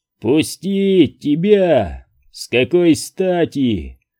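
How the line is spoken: Ruthlessly gleeful growl. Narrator (Russian): в безжалостном веселье прорычал Хат

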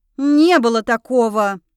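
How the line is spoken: Growl. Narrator (Russian): рыкнула я на них

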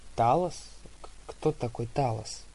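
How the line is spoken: Stammering question. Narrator (Russian): запинаясь, спросил я

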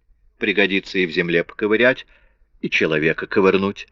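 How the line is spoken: Grumble. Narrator (Russian): проворчал

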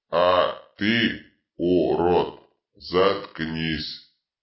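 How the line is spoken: Barking, power-drunk. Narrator (Russian): рявкнул опьяневший от власти Дитрит

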